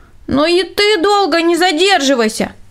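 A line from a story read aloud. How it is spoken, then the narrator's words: Shouted after someone. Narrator (Russian): Крикнул ему вдогонку Рудольф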